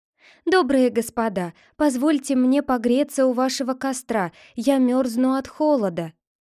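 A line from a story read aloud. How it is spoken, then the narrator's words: Frightened girl, timid voice. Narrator (Russian): Бедная девушка сильно трусила … боязливым голосом сказала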